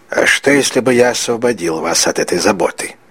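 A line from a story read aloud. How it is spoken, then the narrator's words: Quiet question. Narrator (Russian): тихо спросил незнакомец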